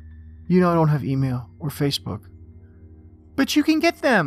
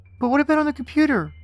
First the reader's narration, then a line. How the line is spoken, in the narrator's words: Jamie asked desperately